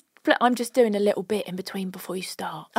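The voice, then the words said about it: Whispering. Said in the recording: “Don't know why I'm whispering, because people can still hear me.”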